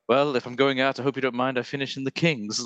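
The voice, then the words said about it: Curt British accent. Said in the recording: “it's got that very like curt British accent. It's so good.”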